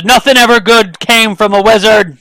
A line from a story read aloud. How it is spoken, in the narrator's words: he shouts